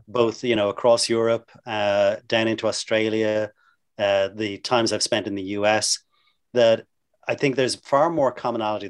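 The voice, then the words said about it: Irish accent. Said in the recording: “you can come to the States with this Irish accent and sound, you know, really exotic and intelligent”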